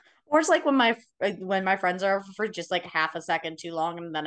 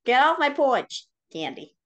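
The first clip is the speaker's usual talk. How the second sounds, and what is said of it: Put-on Boston accent, old person. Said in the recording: “I also don't know why I get a Boston accent when I get old.”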